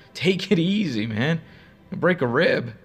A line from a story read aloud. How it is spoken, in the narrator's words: I said, laughing a little